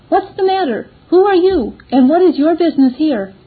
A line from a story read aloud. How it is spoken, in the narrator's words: the old gentleman, as he lifted up his eyes, cried out